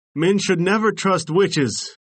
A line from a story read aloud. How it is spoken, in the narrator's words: he cried